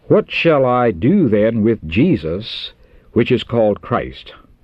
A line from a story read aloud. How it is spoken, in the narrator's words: Pilate asked